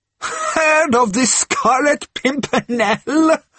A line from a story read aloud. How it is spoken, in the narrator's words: she retorted with a long and merry laugh